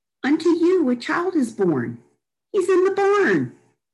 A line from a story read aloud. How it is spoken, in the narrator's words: she yelled